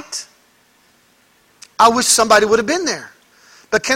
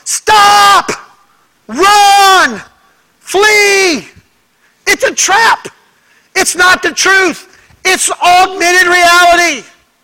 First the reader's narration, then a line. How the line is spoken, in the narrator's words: we would all shout at the top of our lungs